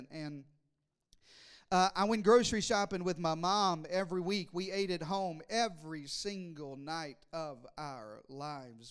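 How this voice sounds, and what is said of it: Southern US accent. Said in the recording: “I was raised in the deep south in Arkansas. I know it's hard to tell by my accent.”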